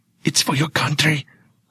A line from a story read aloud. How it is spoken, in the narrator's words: I whisper